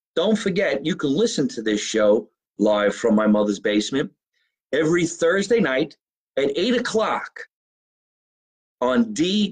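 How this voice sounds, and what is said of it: Noticeable regional accent. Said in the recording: “Listen to my voice. You like my accent? Listen to the voice.”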